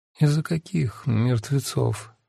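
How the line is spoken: Sleepy mumble. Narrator (Russian): сквозь сон пробормотала Янина

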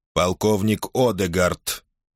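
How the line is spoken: Mechanical neutral voice. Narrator (Russian): произнес робот механическим голосом, имитирующим нейтральный тон

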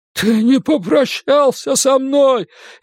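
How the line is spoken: Frenzied shout. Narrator (Russian): исступленно выкрикнул Эд

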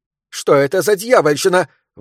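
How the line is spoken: Shouted out. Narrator (Russian): выкрикнула она

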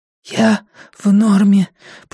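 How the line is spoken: Hoarse wheeze. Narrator (Russian): просипела Ируна

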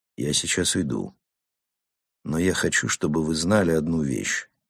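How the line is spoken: Quiet. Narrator (Russian): Нейман тихо сказал

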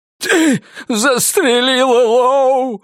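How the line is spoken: Sobbing. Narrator (Russian): всхлипнул Мэй

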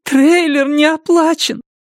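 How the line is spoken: Holding back sobs. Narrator (Russian): Она едва сдерживала рыдание

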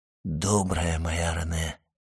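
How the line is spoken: Whisper. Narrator (Russian): прошептал Вильфор

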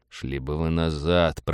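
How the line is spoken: Mutter. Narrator (Russian): пробормотал Роджер

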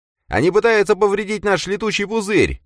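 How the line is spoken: Shouted alarm. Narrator (Russian): выкрикнул Даррент

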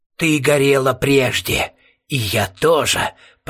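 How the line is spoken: Creaking inner voice. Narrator (Russian): проскрипел голос у нее в голове

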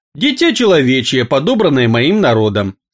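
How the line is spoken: Calm young man. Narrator (Russian): спокойно произнес юноша

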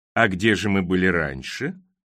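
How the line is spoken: Sly purr. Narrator (Russian): замурлыкал Криспин, похожий на лощеного подлого кота

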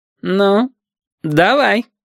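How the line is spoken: Smirking grunt. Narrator (Russian): хмыкнул Хариус

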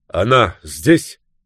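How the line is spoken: Demanding question. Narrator (Russian): спросил он требовательным голосом

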